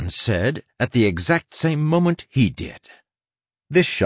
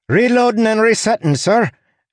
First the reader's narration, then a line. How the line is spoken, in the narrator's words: Anne cried before he could give the order